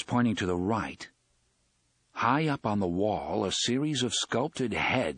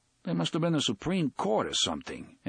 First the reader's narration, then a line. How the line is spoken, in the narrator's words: Eddie said, uneasily